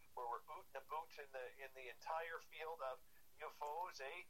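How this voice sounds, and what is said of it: Put-on Canadian accent. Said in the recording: “a great Canadian accent”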